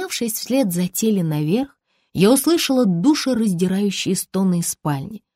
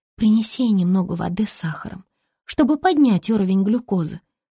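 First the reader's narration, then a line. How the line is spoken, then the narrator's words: Calm advice. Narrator (Russian): спокойно посоветовала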